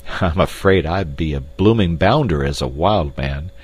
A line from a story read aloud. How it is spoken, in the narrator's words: laughed Clayton ruefully